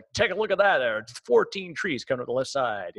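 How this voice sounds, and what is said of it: Mock sports commentator voice. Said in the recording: “like a NASCAR ... doing this constant voice track of it”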